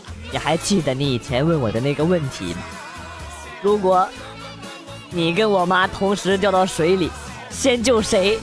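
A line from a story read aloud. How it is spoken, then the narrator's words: Calm, flat. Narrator (Chinese): 淡淡的说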